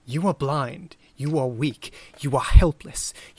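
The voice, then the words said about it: Put-on British accent. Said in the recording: “I can't do a fucking British accent for a German, but, like, that's how I read it.”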